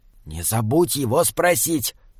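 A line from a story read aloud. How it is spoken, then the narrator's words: Whisper. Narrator (Russian): прошептал Джеремия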